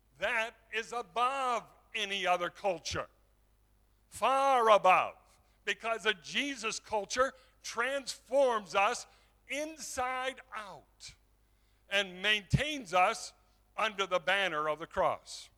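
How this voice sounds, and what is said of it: American accent. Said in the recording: “when people hear my accent, they'll say, that's an American”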